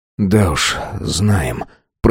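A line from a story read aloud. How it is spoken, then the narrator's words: Whisper. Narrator (Russian): прошептал Байрон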